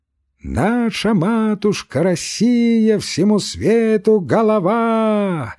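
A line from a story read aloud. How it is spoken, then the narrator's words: Sudden wild singing, choking. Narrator (Russian): Запел вдруг диким голосом Кирюха, поперкнулся и умолк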